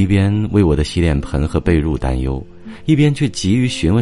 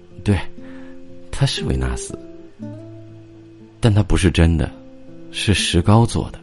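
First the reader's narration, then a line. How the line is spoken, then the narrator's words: Drunken mumbling. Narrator (Chinese): 平原喷出了一股酒气，喃喃自语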